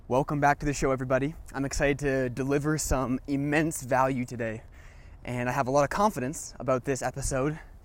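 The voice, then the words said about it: Slightly out of breath while speaking. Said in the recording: “I'm a little bit out of breath as I talk ... I might be a little bit out of breath today because I'm walking in a nature park”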